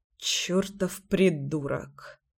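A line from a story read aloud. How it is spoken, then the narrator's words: Mutter. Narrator (Russian): пробормотал Кирюха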